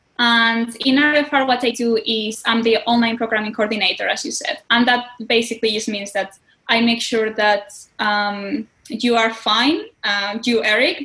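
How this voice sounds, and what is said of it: Spanish accent in English. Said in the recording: “I'm from Spain ... If my accent is too strong, I apologize. English is my second language”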